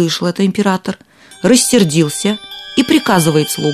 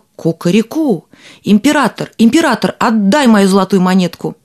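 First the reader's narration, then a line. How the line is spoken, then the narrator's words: Shouting. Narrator (Russian): закричал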